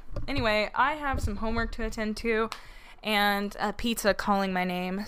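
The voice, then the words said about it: Hoarse, worn-out voice. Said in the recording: “my voice is like all the way shot”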